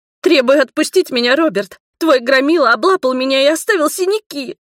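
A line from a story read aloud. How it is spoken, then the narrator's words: Sobbing. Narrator (Russian): всхлипнула Маргари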